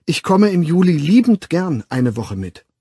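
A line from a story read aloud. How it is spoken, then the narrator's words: Loud and warm. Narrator (German): Laut, aber umso herzlicher, sagte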